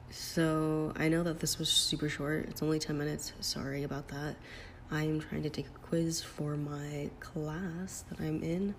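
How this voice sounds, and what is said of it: Speaking very quietly. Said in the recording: “I'm talking so low... it's weird for me to talk like this low”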